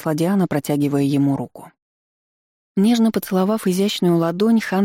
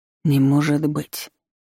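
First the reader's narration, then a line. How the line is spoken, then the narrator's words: Shocked mutter. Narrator (Russian): потрясенно пробормотал он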